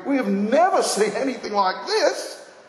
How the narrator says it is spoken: They were all amazed and praised God, exclaiming

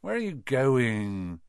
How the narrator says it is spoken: said Ron sleepily

